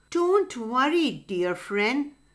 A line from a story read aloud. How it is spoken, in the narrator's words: said Turtle kindly